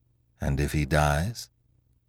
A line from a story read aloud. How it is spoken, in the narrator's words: asked Monsieur Filleul in a low voice